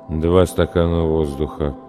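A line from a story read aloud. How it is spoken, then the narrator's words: Muttered. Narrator (Russian): пробормотал мужчина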